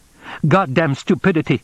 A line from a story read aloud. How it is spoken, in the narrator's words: he said sharply